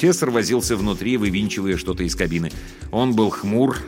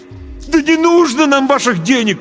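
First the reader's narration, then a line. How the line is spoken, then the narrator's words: Desperate shout. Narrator (Russian): крикнул я с отчаянием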